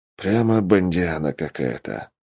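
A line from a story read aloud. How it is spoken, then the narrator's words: Sigh. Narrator (Russian): вздохнул я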